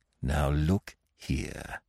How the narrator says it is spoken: he said, lowering his voice

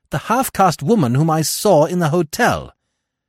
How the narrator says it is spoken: I cried

